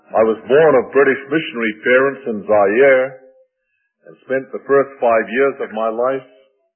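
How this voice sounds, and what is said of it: Noticeable foreign accent. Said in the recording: “several so far have commented on my accent”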